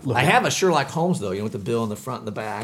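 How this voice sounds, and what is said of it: English accent. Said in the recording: “your English accent”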